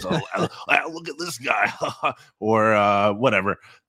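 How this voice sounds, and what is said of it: Cris Collinsworth impression, chuckling. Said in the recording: “With Collinsworth, I would say kind of just like the humorous levity to it that he brings sometimes. Like, he'll just like chuckle through analysis ... I don't know if that was a good impersonation at all”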